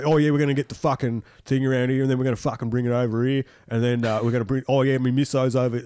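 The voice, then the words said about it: Mocking imitation of a fake accent. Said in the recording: “a fake accent in a field saying fuck a lot”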